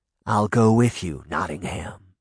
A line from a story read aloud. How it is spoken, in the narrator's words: he said calmly